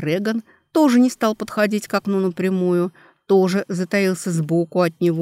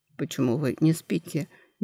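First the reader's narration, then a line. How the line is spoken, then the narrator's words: Quiet question. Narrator (Russian): негромко спросил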